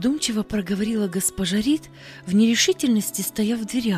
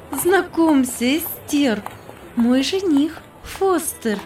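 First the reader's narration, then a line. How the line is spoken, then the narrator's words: Happy, laughing. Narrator (Russian): Счастьем засветились глаза, смеясь, проговорила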